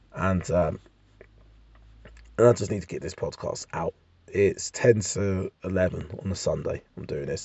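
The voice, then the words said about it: Raspy, hungover-sounding voice. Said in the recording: “I'm just hungover. My voice is raspy.”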